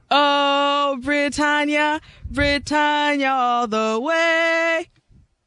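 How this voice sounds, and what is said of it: Sung, weak put-on British accent. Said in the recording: “extremely limited ... The only thing that's more limited is her British accent.”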